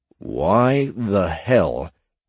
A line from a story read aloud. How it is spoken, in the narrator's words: Ed said slowly